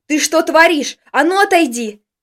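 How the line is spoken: Shouted. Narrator (Russian): крикнул

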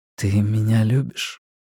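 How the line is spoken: Soft murmur. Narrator (Russian): тихо сказал он в ее волосы

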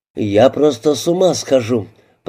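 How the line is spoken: Groan. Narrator (Russian): простонал

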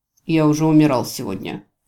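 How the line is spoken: Snorting. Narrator (Russian): фыркнул Джевидж

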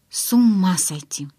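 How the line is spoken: Whisper in ear. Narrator (Russian): прошептала ему на ухо

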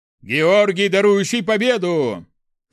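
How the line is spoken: Roaring. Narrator (Russian): проревел Нерба

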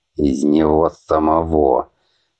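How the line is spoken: Gloomy older man. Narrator (Russian): мрачно кивнул пожилой мужчина

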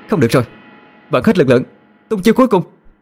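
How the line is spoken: Shout. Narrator (Vietnamese): Yên Nhiên quát lên

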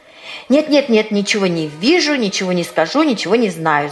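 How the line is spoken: Rapid chatter. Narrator (Russian): затараторила она

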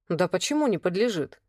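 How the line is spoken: Snorting hmph. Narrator (Russian): хмыкнул Ян

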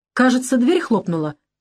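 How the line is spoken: Exclaiming. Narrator (Russian): воскликнул я, останавливаясь

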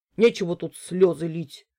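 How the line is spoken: Grumbling merchant. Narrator (Russian): проворчал купец

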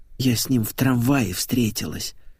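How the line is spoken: Whisper. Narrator (Russian): шепотом сообщила Олеся

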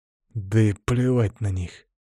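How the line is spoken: Through gritted teeth. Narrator (Russian): сквозь зубы ответил я

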